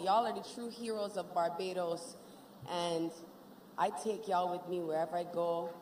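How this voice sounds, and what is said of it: Barbadian (Bajan) accent. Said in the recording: “we Bajan to the bone. No matter if it's the accent”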